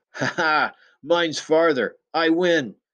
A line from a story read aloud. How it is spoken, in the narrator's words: Pudgy shouted triumphantly